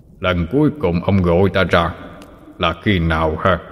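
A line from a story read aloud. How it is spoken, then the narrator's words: Deep booming voice. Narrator (Vietnamese): Một giọng nói ồm ồm vang lên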